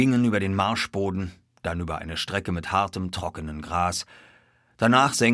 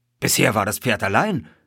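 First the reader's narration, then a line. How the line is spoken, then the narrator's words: Called out. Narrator (German): rief ich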